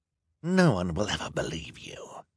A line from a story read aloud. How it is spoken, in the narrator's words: Esme said in a sinister whisper